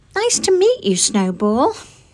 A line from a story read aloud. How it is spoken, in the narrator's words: answered Honey kindly